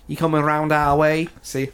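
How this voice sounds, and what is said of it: Deliberately bad Mancunian accent. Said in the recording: “Mancunian dialect ... That's a very, very bad Mancunian accent”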